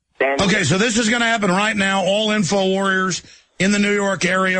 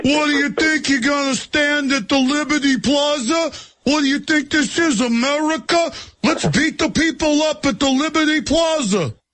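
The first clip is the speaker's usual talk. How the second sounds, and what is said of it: Imitates another person's voice, angry cop. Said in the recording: “his Bernie impression, but he's doing it as a New York cop who's mad at the people who are gathering”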